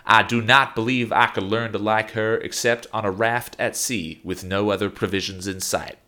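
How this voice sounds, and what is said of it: Southern colonel character voice. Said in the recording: “what accent to do all these quotes in ... I'd go for the Colonel ... Always the Colonel”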